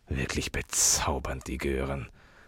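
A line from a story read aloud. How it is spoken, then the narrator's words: Distracted murmur. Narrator (German): murmelte Gabriel zerstreut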